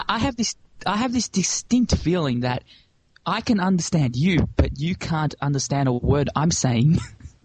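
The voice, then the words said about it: Strong Australian accent. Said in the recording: “who aren't Australian, they're like, oh, we don't understand your accent. It's too strong”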